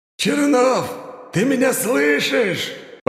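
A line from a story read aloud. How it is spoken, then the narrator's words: Loud yell. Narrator (Russian): По-русски заорал месье Жан-Жак в сторону города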